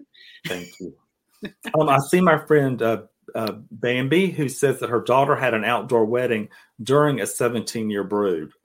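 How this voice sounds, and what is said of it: Noticeable accent. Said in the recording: “I love your accent ... you have a fantastic accent”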